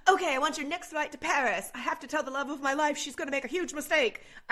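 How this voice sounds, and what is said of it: Put-on unidentified accent. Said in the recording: “I don't know what accent I'm doing.”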